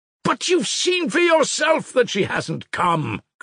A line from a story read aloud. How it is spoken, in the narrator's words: cried Ivan